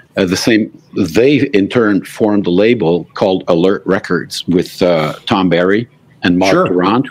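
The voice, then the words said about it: French-Canadian accent in English. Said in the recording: “you can tell by my accent that I'm Francophone. I'm not an Anglophone.”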